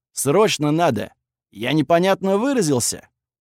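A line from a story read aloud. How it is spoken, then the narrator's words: Barking shout. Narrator (Russian): рявкнул Верзила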